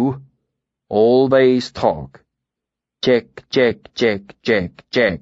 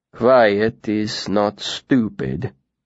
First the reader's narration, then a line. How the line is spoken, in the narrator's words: he said, his voice flat